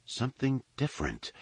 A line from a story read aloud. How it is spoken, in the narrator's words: she tried to explain, and her voice seemed to falter